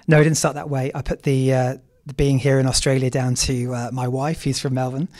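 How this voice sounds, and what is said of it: Noticeable non-Australian accent. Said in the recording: “I'm noticing the accent”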